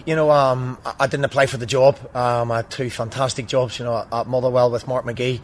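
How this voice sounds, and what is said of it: Accent with a distinct twang. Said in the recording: “there's a certain twang to the accent”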